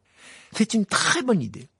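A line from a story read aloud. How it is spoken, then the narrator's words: Brightening excited exclamation. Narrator (French): s'exclama Ron, dont le visage s'éclaira soudain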